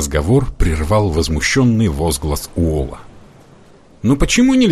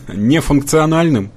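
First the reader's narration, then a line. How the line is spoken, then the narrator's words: Laughing. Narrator (Russian): засмеялся Бро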